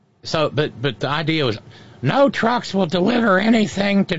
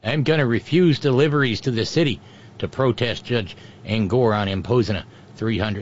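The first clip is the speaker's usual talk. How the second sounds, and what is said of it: Put-on Minnesota-sounding accent. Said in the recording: “We're going to need a different voice ... No, that's very Minnesota. I got to work on my Chicago accent.”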